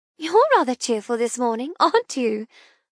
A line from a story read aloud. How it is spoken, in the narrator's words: I chuckle